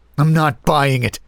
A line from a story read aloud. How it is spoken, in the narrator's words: spat